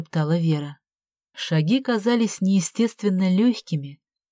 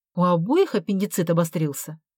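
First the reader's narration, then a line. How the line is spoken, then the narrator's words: Angry question. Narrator (Russian): зло спросила Вера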